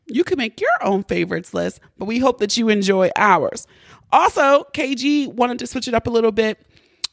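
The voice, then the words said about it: Hoarse, congested voice. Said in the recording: “I sound a bit hoarse, maybe a little congested ... Just some congestion now”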